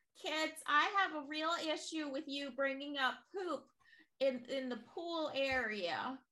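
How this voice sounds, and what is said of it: Older lady character voice. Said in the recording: “who's the older lady that's Miss Louise? ... Miss Louise pops up and she's like, no more poop talk. I can't do a voice.”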